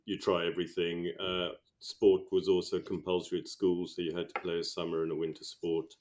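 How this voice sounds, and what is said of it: South African accent. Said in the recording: “I was brought up in South Africa, as my accent can attest to.”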